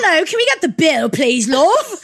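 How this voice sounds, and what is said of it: Comical put-on English accent. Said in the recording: “they actually have the most comical English accents I've ever heard ... you're doing a voice”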